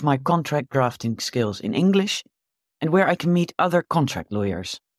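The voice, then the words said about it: Slight Dutch accent in English. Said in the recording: “Leia has a slight accent there because she is supposed to be a Dutch lawyer”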